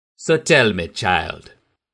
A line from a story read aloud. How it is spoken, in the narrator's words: purred in a fluid, strangely accented voice